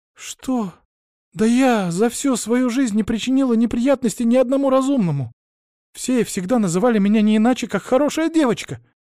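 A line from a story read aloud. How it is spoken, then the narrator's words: Shouting back. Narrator (Russian): закричала в ответ Мария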